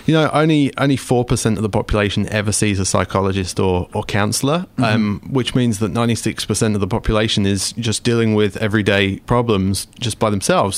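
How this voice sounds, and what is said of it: English accent. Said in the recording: “I come from England, as you can probably hear from my accent”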